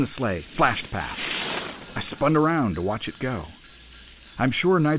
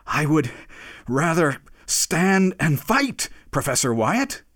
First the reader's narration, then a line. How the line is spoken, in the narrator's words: he panted as he said it